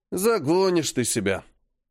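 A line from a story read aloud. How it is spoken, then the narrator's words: Grumbling. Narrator (Russian): проворчал Серый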